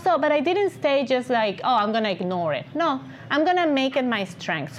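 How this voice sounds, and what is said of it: Speaks English with an accent. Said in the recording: “I will be self-conscious about my accent ... afraid and ashamed of my accent, now it's my signature ... You hear my voice, you're probably going to recognize it”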